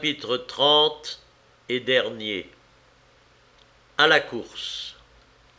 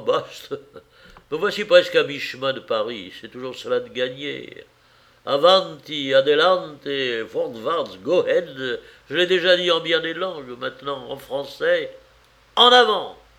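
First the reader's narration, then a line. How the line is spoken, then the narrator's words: Joyful after sigh. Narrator (French): Après un soupir, il conclut joyeusement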